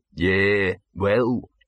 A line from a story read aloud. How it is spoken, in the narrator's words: he said gloomily